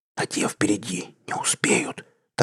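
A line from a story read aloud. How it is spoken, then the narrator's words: Whispered reply. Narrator (Russian): также шепотом отозвался я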